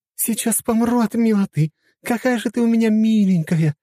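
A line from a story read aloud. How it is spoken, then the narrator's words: Near-squealing with delight. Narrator (Russian): Едва не пищала Ангелина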